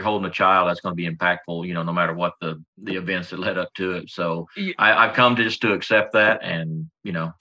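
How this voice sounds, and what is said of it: Oklahoma or Southern US accent. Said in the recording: “I can hear ... accent. He's got to be from Oklahoma or down south somewhere”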